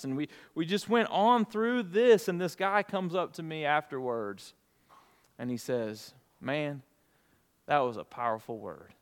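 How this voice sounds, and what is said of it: Alabama Southern US accent. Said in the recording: “I should probably turn on my Alabama accent right now, but I've always got that.”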